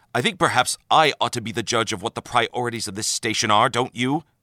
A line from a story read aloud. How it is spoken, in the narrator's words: snapped the man